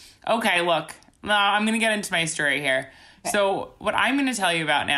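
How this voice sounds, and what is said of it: Usual voice. Nothing is said of it.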